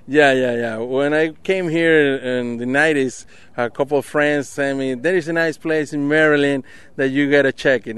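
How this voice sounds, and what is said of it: Venezuelan accent. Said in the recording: “your accent. We know you're not from Dundalk. You're from Venezuela”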